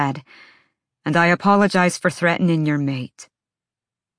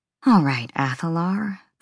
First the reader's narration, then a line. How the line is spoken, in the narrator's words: Bryce muttered